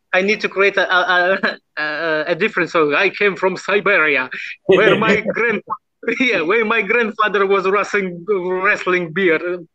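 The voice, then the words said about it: Russian accent. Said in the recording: “your accent ... The Russian.”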